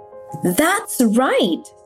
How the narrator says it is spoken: God exclaimed

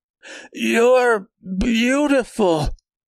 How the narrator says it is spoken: cried out

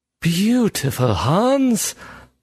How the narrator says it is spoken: Bergson breathed

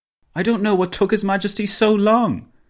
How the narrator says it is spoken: Dinglebrush exclaimed

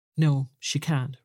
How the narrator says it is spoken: replied Bumble

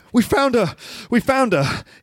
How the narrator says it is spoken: He gasps

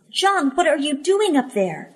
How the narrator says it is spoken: I cried

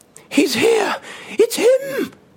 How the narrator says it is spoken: she screamed

